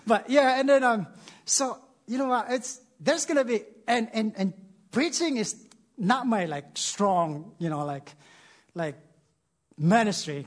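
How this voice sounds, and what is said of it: Non-native English accent. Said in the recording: “he speaks, like, weird. Like, he's got this accent, and yeah, I have accent. English is my third language”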